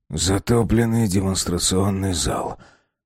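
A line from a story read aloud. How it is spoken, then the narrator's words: Gloomy summary. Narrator (Russian): мрачно подытожил Безил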